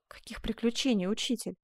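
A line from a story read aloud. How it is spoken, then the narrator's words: Muttering. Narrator (Russian): пробормотал Асканио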